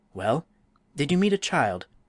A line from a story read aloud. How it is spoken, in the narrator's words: he asked eagerly